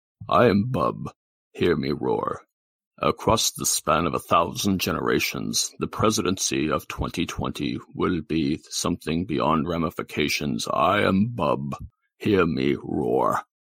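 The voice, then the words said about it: Deep booming voice-of-God character voice. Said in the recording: “deep voice, and I do a Mr. Bub impersonation ... I gotta get my voice of God”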